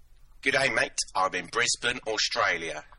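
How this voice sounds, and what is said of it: Attempted Australian accent. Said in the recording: “That was supposed to be my Australian accent.”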